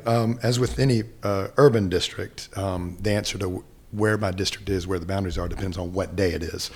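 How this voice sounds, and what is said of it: Husky, hoarse voice from illness. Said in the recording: “I'm just coming off of a non-COVID illness. That's why my voice sounds so sultry and husky and sexy right now. ... Yeah, great podcast voice.”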